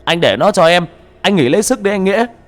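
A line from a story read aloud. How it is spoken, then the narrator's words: Yelling. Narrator (Vietnamese): Tên Khang cũng gào lên một tiếng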